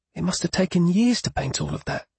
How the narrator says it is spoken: she said in a whisper, almost as if she was afraid that one of the painted figures would overhear her comments

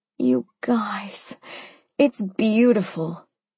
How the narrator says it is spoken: I breathed, with delight at my new baby

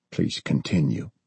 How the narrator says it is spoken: Bob said softly

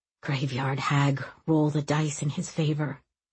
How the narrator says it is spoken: he prayed softly

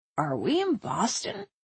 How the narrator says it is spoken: asked Tristan, and groaned

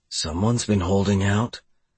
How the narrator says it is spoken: I whispered in her ear

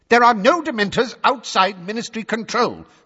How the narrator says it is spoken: snapped Fudge, who had turned brick red

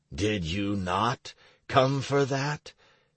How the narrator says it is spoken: Do Not Punic smiled grimly

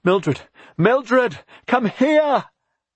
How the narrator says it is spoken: She called to her neighbor at the top of her voice

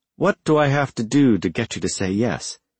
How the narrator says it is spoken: She sighed

